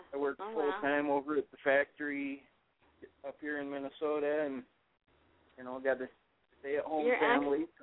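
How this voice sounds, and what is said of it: Minnesota accent. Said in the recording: “Your accent is so cute. I love that. It's so cute. Minnesota. I can't even do it.”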